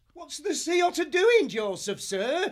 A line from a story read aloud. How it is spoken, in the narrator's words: he cried